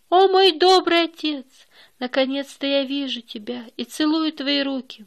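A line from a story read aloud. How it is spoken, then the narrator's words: Exclaiming. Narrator (Russian): воскликнул Эрик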